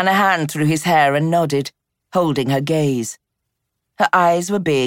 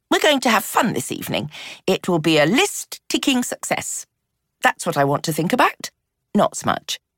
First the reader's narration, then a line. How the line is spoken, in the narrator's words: seemed to soften, said quickly